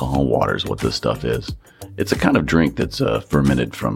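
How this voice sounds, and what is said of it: Usual voice. Nothing is said of it.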